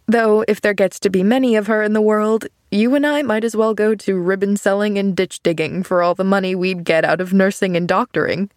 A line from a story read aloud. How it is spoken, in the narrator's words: he laughed